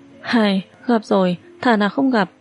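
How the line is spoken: Sighing. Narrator (Vietnamese): Thường Các thở dài

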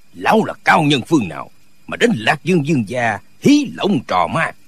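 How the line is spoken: Angry shout. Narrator (Vietnamese): Dương Trọng Cường quát lên

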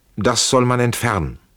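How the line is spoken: Loud, harsh, irritated. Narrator (German): sagte Friedrich laut, in außerordentlich hartem und gereiztem Ton

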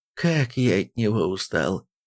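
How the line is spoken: Weary sigh. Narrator (Russian): вздохнул король Тробиус

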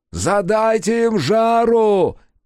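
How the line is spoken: Shouting. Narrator (Russian): крикнул Мото

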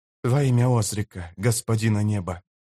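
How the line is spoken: Quiet whisper. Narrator (Russian): тихонько прошептал Йоррут

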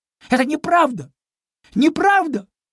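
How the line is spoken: Exclaimed. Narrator (Russian): воскликнул Чуня

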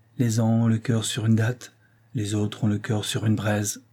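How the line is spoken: Murmured. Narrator (French): murmura-t-elle

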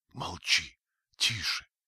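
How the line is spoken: Whispered. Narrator (Russian): прошептала

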